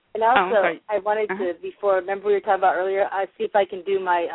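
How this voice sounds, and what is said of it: Usual voice. Nothing is said of it.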